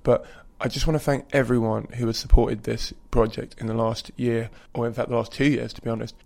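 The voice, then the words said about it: Croaky, worn voice. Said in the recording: “my voice is a little croaky. Kind of lost it for a while”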